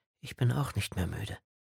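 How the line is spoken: Quiet soft speech. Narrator (German): sagte sie leise

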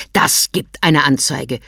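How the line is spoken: Snapping gruffly. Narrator (German): schnauzte er

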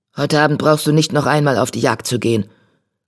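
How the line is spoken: Growled. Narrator (German): knurrte Tigerkralle

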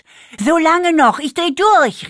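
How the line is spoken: Called out. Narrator (German): rief

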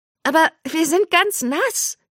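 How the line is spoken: Shrieked. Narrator (German): kreischte

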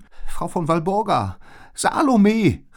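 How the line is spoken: Calling out. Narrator (German): rief Liz

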